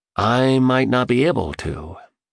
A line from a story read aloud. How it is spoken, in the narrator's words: he said as his voice trailed off